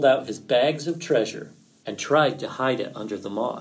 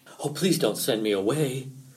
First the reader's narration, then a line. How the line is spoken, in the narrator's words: whimpered Fox